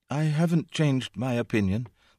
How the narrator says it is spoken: said, more feebly again

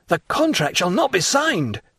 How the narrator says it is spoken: cried Morel

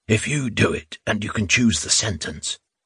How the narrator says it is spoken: Rubin whispered

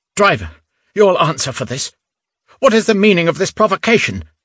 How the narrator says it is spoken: Innocenti cried angrily

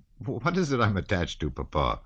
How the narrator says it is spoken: said Anatole, with a laugh

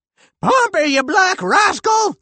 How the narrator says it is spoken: squeaked the general

